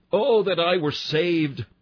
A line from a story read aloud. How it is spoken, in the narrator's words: We cried out